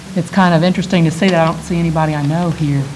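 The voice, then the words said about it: Southern US accent, Texas. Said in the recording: “I will also explain my accent a little bit before I get started, because I know y'all are probably curious. I am from Texas originally, and I did spend 7 years in Alabama. ... it hasn't gone away”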